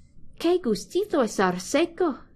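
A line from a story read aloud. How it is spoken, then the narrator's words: Exclaiming. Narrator (Spanish): exclamó Oliver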